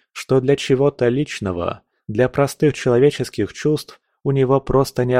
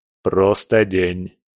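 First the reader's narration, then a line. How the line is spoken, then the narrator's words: Even-voiced interruption. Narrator (Russian): ровным голосом прервал ее Абадон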